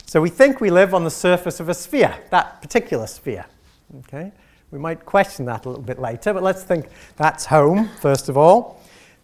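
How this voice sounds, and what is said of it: Manx (Isle of Man) accent. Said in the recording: “you might be puzzling as to my accent and exactly which one of those islands I'm from ... I'm from that one in the middle, right? The Isle of Man.”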